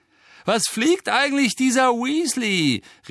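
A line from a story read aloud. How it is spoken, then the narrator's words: Contemptuous call. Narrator (German): rief Malfoy verächtlich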